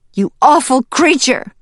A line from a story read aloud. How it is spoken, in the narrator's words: Sprout shouted at the weasel as she started to tumble down the slope